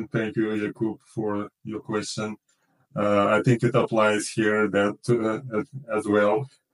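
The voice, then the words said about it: Non-native English accent. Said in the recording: “I also have some accent.”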